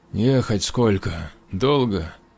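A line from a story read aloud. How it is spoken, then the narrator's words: Exhaled. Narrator (Russian): выдохнул он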